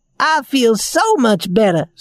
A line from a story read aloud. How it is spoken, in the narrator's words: said Raggedy Ann happily